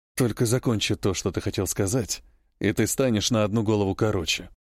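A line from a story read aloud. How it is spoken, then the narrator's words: Hoarse rasp, hardened killer. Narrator (Russian): прохрипел матерый убийца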